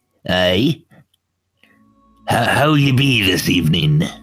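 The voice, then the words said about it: Put-on character accent, sounds drunk. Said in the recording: “Is he drunk or is that an accent? ... an accent. It's the way I talk.”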